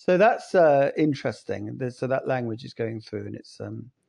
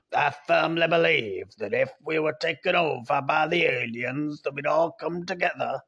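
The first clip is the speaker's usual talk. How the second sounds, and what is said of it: Imitates another person's voice. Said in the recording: “my Reagan impersonation. quite spot on, isn't it?”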